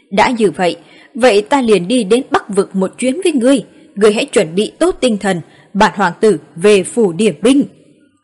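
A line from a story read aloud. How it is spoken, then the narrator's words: Cheerful loud laughter. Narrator (Vietnamese): Nhị hoàng tử vui vẻ, cười to hai tiếng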